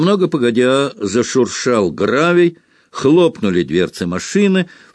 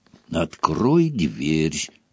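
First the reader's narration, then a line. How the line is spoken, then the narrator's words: Hiss. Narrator (Russian): зашипела тетя Петунья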